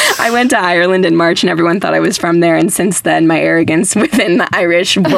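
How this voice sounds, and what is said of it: Usual voice. Nothing is said of it.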